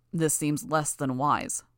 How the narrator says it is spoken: growled

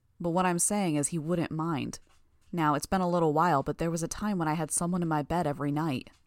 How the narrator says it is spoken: In a more normal voice, said

